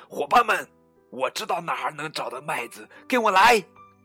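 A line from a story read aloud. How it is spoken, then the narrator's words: Child shouting. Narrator (Chinese): 小胖墩儿喊道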